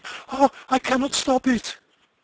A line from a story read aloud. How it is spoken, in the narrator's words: she cried